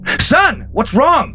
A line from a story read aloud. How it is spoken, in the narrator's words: He now yelled